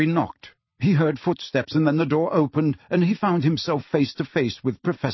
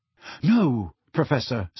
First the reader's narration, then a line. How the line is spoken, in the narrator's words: said Harry hastily